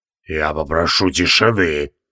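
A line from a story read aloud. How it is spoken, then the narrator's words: Hiss. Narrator (Russian): прошипел Тевилдорм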